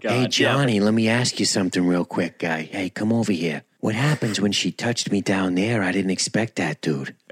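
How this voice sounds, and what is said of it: Put-on Boston accent. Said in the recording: “he's got a shitty Boston accent now. We're running through them all right now”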